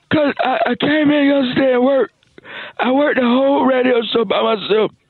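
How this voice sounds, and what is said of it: Hoarse, strained voice. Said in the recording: “My voice is gone. ... my voice gone.”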